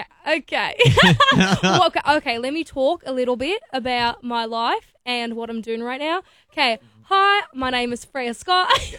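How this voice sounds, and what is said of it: Put-on Australian accent. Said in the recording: “How well do you do an Aussie accent? ... That was really good.”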